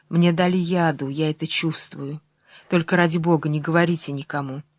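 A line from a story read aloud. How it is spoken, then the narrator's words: Whispered in ear. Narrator (Russian): прибавляет ему шепотом на ухо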